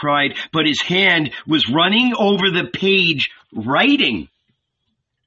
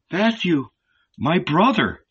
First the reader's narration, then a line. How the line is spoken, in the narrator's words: said quietly